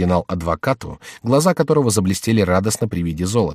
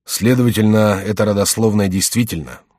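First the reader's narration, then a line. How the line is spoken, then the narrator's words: Continuing with a sigh. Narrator (Russian): продолжал, вздохнув, Генрих де Гиз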